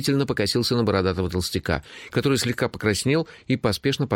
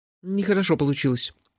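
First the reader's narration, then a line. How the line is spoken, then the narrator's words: Confused, at a loss. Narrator (Russian): растерянно сказал его величество Гурик Джуффину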